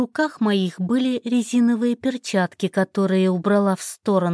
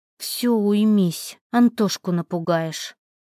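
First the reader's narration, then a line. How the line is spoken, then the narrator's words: Sigh. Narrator (Russian): Вздохнула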